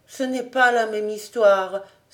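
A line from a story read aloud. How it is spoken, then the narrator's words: Sighed. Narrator (French): soupira Emmanuel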